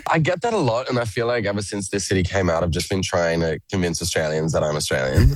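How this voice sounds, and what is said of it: Australian accent mixed with American. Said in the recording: “My accent is an absolute mess... you sound like a bloody Yank”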